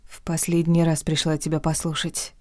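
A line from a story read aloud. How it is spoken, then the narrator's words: Whispered. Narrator (Russian): прошептала я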